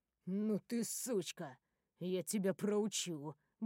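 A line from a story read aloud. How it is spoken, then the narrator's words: Muttering. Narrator (Russian): бормочет он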